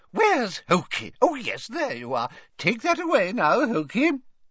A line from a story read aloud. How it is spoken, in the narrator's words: said Hepzibah happily